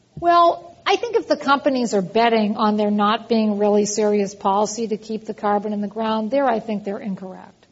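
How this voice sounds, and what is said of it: American East Coast accent. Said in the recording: “you can hear from my accent that I'm originally from the East Coast”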